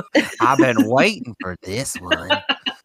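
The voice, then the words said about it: Creepy, spooky voice. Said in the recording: “creepy voice”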